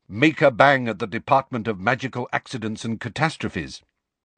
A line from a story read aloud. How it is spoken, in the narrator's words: said Hermione sharply